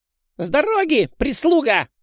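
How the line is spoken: Barking snap. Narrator (Russian): Рявкнул маленькая пипирка

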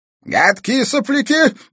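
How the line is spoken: Old man shouting. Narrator (Russian): крикнул старик

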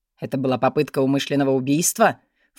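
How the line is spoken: Snort. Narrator (Russian): фыркнул он

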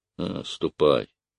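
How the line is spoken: Dejected captain. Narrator (Russian): сказал упавшим голосом капитан

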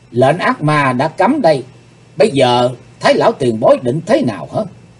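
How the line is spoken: Stern question. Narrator (Vietnamese): Hắc Phụng Hoàng chỉ cây quái lệnh rồi nghiêm giọng hỏi

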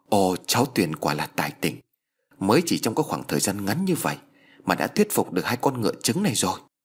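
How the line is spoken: Excited, joyful. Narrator (Vietnamese): vui mừng rối rít

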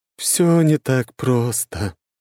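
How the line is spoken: Wise woman's sad smile. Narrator (Russian): немного печально улыбнулась ведунья

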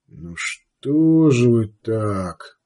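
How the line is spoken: Sad. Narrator (Russian): произнес он печально

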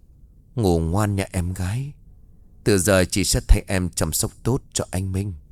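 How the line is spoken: Soft smirking voice. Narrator (Vietnamese): Cô nhếch môi cười khẽ nói

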